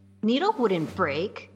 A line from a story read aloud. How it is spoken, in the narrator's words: Arya said defiantly, but her voice betrayed her words